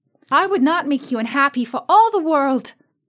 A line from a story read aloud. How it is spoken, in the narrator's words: exclaimed Dorothy